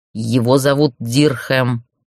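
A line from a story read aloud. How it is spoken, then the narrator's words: Near growl. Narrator (Russian): почти прорычал Сар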